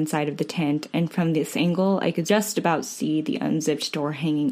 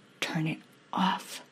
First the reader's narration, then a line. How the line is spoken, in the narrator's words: I whispered again